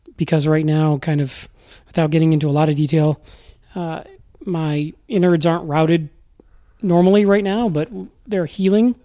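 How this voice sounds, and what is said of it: Weak, tired voice. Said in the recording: “you can probably hear my voice is still pretty weak and I get tired pretty quick”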